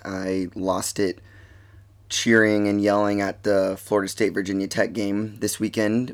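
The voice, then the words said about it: Slightly raspy voice. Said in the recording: “my voice. It's a little raspy.”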